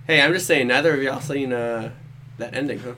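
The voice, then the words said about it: Imitates another person's voice, Southern accent. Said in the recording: “What accent was that? ... Forrest Gump, take it easy over there ... my Trevor Murdoch accent”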